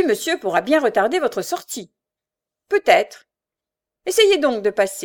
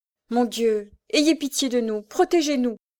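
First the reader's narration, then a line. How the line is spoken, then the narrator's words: Murmured prayer. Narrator (French): murmura-t-elle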